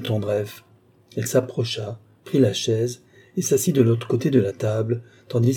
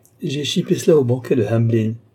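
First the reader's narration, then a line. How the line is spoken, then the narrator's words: Laughing. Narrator (French): dit-il en riant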